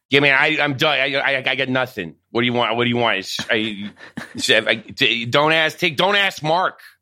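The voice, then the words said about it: Imitates another person's voice. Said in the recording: “I would love to hear your Marc Maron ... impression”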